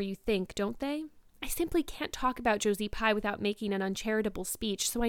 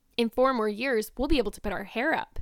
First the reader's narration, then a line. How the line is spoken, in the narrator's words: said Diana